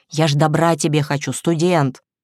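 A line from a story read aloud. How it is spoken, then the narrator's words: Whisper. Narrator (Russian): Варвара Спиридоновна шепнула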